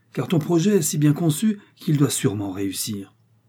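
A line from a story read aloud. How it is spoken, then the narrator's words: Exclaimed. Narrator (French): s'écria de Mantoue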